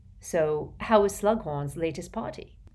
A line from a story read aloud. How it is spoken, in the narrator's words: Harry asked her thickly through the gum shield